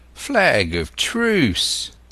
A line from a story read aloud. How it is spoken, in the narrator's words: cried Silver